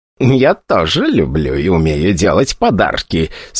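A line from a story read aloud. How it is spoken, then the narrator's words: Eager mutter. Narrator (Russian): с предвкушением бормотала она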